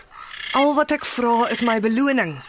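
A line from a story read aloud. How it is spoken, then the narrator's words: Astonished beggar pleading. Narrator (Afrikaans): Die bedelaar kyk verstom na die handelaar en pleit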